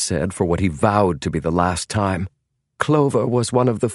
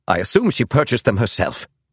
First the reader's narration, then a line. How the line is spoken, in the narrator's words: snapped James